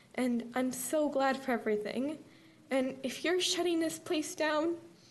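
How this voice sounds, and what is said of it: Emotional voice. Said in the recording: “I get emotional”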